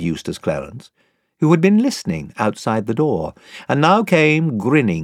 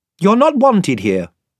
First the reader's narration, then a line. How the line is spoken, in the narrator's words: said Edmund curtly